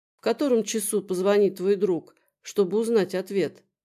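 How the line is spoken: Soft question. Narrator (Russian): мягко спросила

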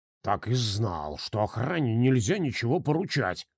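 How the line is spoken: Grumbling. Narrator (Russian): проворчал банкир

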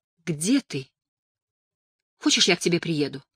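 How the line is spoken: Soft, caressing voice. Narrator (Russian): Голос Анни звучал мягко, лаская слух

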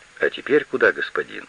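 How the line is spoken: Plain. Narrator (Russian): спросил шофер

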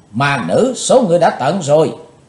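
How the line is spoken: Two girls shrill unison shout. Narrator (Vietnamese): Hai thiếu nữ dẫn cung trang đồng thanh hét lên lanh lảnh

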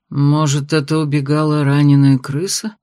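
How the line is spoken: Grumbled. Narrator (Russian): проворчал магистр

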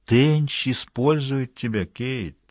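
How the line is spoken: Insinuating voice. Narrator (Russian): проговорил Каферти вкрадчивым голосом

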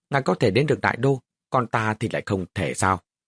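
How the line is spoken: Cold. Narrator (Vietnamese): Lý Dẫn lạnh lùng nói

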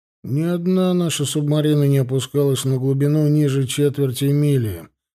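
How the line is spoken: Gloomy. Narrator (Russian): мрачно сказал Фенхель

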